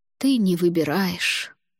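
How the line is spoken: Tired. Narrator (Russian): устало произнесла она

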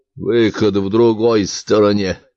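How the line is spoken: Absent-minded professor grumbling. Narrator (Russian): машинально буркнул профессор

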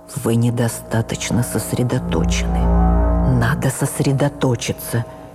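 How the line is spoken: Quiet whisper. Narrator (Russian): Константин Сергеевич, игравший Обрезкова, и тихим шепотом сказал мне

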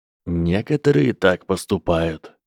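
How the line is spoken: Calm, casual professor. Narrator (Russian): спокойно ответил профессор Квиррелл, словно обсуждая погоду

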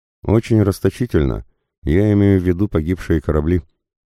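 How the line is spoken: Sighing. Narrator (Russian): вздохнул командир Смит

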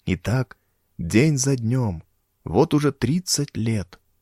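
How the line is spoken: Whispered. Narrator (Russian): прошептал

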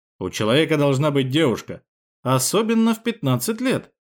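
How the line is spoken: Snorting chuckle. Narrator (Russian): хмыкнул Петров

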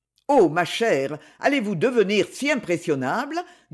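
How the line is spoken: Mocking tone. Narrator (French): dit-il d'un ton railleur

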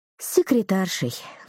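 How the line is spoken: Sigh. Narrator (Russian): вздохнула Дана

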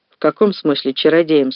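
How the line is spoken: Plain. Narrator (Russian): спросил Мейсон

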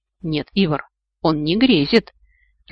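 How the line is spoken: Confused mutter. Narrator (Russian): растерянно пробормотал бордовый

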